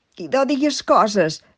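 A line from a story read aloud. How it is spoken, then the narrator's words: Exclaimed. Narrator (Catalan): s'exclama en Joanet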